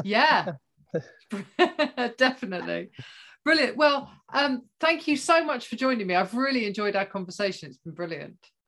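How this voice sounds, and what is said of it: Melodic British accent. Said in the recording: “I really like your voice and I miss the British accent. Beautiful accent. ... yours is really, it's very melodic. It's beautiful.”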